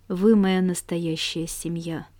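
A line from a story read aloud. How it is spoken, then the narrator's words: Muffled low voice. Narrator (Russian): глухо сказал он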